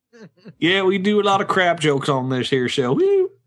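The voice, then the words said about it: Put-on Southern accent. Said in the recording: “Why is everyone Southern with you? ... Why are you Southern again?”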